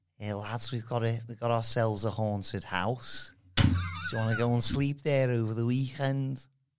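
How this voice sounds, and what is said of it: Put-on Scouse accent. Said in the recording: “say something spooky in a scouse accent.”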